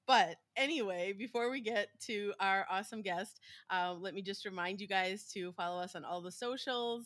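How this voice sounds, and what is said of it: American accent. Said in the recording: “in an American accent ... my American accent will still be here”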